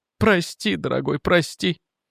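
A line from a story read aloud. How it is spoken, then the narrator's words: Sobbing. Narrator (Russian): всхлипывала она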